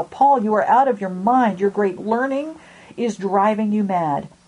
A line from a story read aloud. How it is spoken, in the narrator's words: Festus cried out